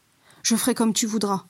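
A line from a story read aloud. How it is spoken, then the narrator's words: Passionate reply. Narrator (French): répondit Psyché d'un ton passionné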